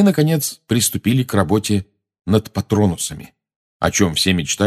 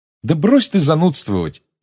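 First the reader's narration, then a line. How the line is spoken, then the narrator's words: Cheerful exclamation. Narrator (Russian): весело воскликнула Чжоу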